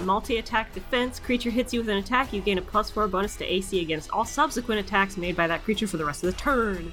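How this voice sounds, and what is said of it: Very fast speech. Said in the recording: “You said that really fast”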